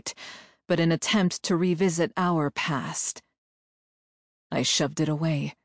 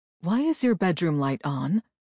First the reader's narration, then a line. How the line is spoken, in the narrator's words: Paris asked